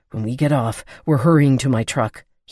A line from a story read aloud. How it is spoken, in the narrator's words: he breathed out